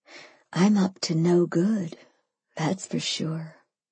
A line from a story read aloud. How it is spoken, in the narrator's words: I breathed